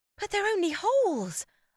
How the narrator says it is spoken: gasped, feeling my heart pound

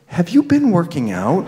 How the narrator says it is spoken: said in a half whisper

